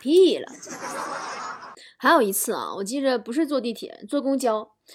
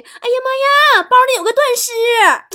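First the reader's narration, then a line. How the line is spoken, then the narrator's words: Young woman shouting. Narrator (Chinese): 查看扫描机器那个小姐姐喊了一句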